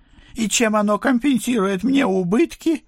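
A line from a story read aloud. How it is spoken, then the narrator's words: Howled. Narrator (Russian): взвыл месье Бронштейн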